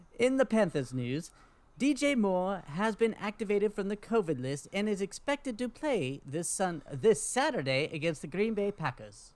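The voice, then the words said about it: Put-on British accent. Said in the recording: “keep that British accent”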